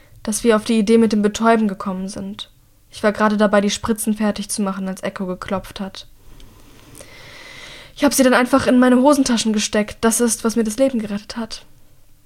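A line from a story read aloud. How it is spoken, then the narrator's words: Croaking. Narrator (German): krächzt Mira schließlich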